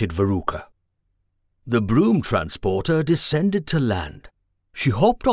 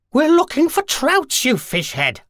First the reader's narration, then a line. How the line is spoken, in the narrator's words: snapped the witch, who couldn't think of anything better to say